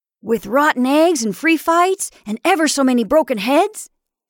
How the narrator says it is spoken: exclaimed Eric

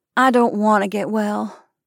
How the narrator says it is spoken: she said wearily

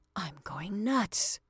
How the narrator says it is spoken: Lloyd whispered

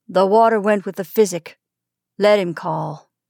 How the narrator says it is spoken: in the same decided tone, Robert said

